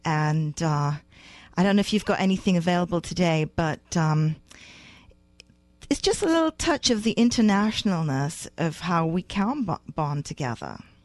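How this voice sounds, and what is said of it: British accent. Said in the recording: “I grew up in England. I don't know if you can tell from the British accent”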